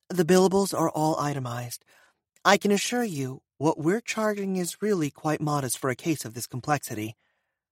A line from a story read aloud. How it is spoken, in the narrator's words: Gino replied calmly